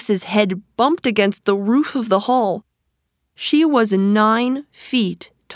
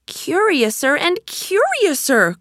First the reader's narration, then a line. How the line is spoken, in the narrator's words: cried Alice